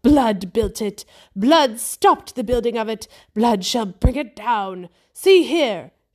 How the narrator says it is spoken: she cried again

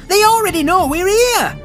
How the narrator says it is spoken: Margan shouted back at him

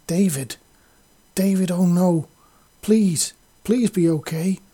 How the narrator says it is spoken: Vizzy cried as a hard note of panic bit into her voice

